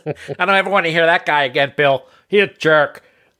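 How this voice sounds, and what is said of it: Imitates another person's voice, unflattering. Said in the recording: “That was my impersonation of your wife, but it probably wasn't a very good one ... you did an imitation of her that was not very flattering”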